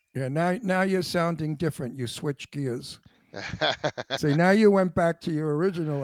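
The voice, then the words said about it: Brooklyn New York accent. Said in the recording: “I have a Brooklyn accent ... the New York thing was there. I could hear it.”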